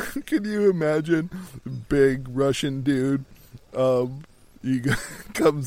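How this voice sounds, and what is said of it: Usual voice. Nothing is said of it.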